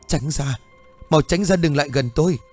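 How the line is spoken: Sobbing, broken words. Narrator (Vietnamese): Nó vừa khóc vừa mếu máo, nó không tròn câu

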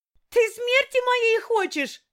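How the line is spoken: Yelling. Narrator (Russian): завопила я

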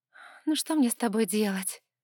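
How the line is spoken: Sighing. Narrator (Russian): вздохнула девушка

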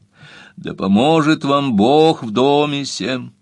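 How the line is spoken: Resonant deep voice. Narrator (Russian): произнес звучным глубоким голосом

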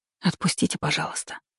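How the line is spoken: Whisper. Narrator (Russian): прошептала

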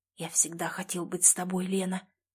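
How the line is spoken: Hoarse, breathless whisper. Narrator (Russian): прошептал хрипло, чувствуя, как дыхание становится горячим и сбивчивым

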